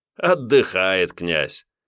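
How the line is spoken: Laughing loudly. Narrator (Russian): расхохотался Найшалк

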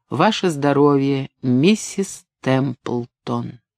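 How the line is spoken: Enthusiastic toast. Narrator (Russian): В порыве воодушевления Чила сказал

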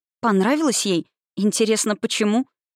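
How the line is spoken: Forced out. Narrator (Russian): Я выдавила

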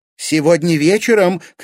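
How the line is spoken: Mother shouting after someone. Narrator (Russian): крикнула мать

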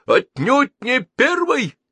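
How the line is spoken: Shouting. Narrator (Russian): закричал Телескопов

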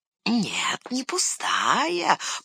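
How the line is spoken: Hissed. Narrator (Russian): прошипел Горлум

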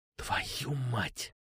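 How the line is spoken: Whispered. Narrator (Russian): Прошептал

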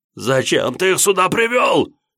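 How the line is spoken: Near-hysterical shout. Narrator (Russian): Почти истерично прокричал Далхан

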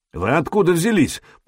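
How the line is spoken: Suspicious grumble, foreign language. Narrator (Russian): проворчал он по-хузарски, с недоверием

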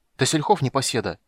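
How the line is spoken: Angry, to himself. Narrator (Russian): сердито сказал себе

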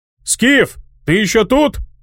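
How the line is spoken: Friend shouting. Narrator (Russian): крикнул приятель

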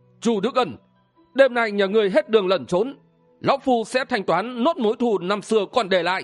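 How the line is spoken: Deep-voiced shout. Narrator (Vietnamese): Một người trong bọn họ trầm giọng quát lên

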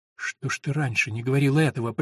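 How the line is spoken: Whispered. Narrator (Russian): прошептала Эллен

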